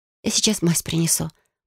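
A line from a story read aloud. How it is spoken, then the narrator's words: Whisper. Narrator (Russian): прошептала Селения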